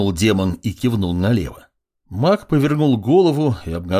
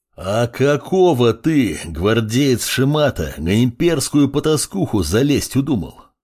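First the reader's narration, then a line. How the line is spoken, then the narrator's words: Growled, knight. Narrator (Russian): прорычал рыцарь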